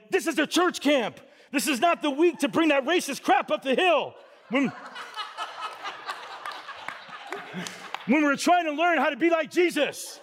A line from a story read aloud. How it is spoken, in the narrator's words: go on, not missing a beat, yelling